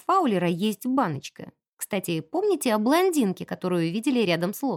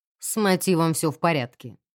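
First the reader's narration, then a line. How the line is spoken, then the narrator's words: Grim reassurance. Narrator (Russian): заверил инспектор мрачно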